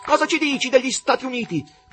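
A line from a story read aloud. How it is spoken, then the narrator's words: Shouting. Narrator (Italian): gridò uno degli spettatori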